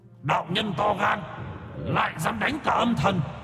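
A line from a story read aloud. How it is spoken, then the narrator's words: Roaring from all around. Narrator (Vietnamese): Âm thần từ khắp nơi gầm thét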